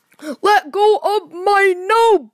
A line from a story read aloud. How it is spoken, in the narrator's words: cried Mr